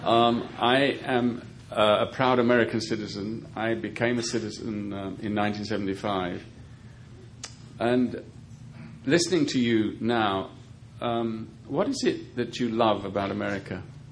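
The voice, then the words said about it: Speaker's own foreign accent. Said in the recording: “in spite of my accent”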